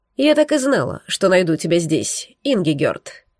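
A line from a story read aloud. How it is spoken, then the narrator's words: Cold curt remark. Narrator (Russian): бросила холодно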